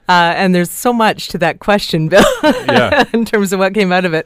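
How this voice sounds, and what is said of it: Slightly scratchy voice. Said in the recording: “My voice might be a little scratchy.”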